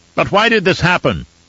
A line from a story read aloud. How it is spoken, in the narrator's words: a man called out